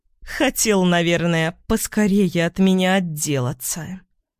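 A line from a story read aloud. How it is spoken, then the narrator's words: Angry hiss. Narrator (Russian): злобно прошипела Осокина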